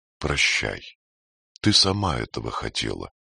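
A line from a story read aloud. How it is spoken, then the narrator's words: Quiet. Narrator (Russian): Халев тихо произнес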